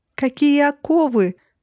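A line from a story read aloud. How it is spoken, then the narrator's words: Shrieking woman. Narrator (Russian): завизжала желтоглазая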